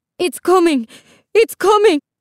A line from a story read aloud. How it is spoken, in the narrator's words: Isabel's mother cried out